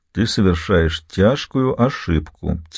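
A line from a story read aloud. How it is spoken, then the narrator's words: Quiet. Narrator (Russian): тихо произнес Билли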